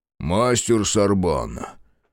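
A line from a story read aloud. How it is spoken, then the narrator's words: Harsh tone, older man. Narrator (Russian): жестким тоном проговорил этот солидный мужчина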